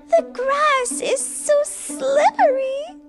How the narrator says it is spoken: wailed the girl

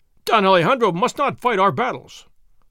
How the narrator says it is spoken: one of them cried

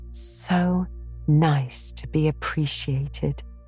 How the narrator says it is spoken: sighed Anne rapturously to Marilla

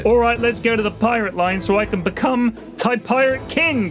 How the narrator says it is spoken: Bodega yelled

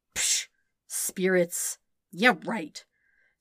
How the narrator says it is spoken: Sokka grumbled

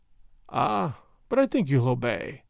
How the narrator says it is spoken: he added, with that funny dry chuckle of his

